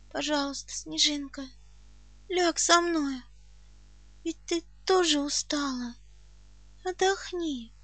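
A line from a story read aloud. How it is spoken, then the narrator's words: Weak pleading voice. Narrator (Russian): прошу слабым голосом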